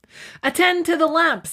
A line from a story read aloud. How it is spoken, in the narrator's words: shouted impatiently